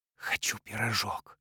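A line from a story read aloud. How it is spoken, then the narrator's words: Breathless whisper. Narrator (Russian): прошептал, замирая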